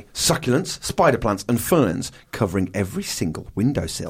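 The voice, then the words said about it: Put-on US Georgia accent. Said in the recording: “what accent were you doing there, by the way? ... That was Georgia. ... On my mind.”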